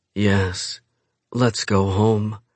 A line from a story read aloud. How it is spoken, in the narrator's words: she says on a low moan